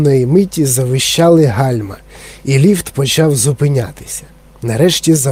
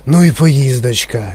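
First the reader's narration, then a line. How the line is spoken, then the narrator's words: Sighing. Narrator (Ukrainian): зітхнув пан Тіві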